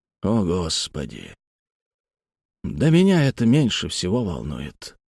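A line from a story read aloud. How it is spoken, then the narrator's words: Mumbling. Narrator (Russian): пробормотал он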